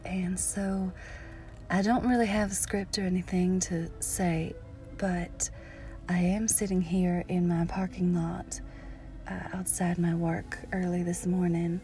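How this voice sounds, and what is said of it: Natural Southern US accent. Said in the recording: “my natural southern accent”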